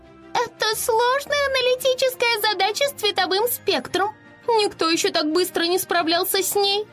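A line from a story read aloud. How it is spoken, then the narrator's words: Admiring squeak, pixie. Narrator (Russian): Восхищенно пропищала Афина, пикси-хранительница облачной башни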